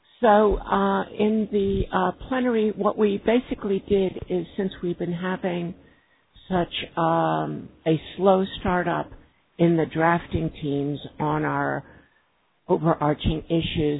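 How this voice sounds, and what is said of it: Slightly scratchy voice. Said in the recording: “Sorry if my voice is a little scratchy. It's actually the first time I've spoken today.”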